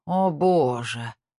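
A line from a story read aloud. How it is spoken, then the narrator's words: Moan. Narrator (Russian): простонал Эйса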